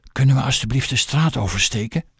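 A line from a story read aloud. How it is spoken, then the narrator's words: Frightened whisper. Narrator (Dutch): fluisterde ze geschrokken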